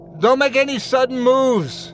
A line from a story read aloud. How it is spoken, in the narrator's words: shouted